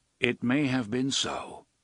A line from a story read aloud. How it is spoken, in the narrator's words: Roland agreed, standing calmly on thin air